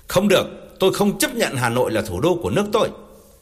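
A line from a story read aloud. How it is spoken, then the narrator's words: Screaming. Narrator (Vietnamese): Thiệu vẫn thét lên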